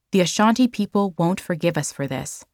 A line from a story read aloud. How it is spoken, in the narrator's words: said Quay